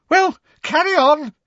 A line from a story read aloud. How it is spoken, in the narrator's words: said Professor Trelawney loudly, her voice high-pitched and somewhat hysterical